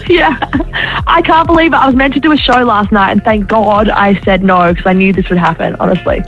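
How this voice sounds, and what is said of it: Hoarse, worn-out voice. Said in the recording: “your voice sounds shot, babe... that's also where my voice is gone”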